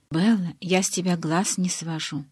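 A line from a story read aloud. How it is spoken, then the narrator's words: Sudden whisper in ear. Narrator (Russian): внезапно прошептала мне на ухо Элис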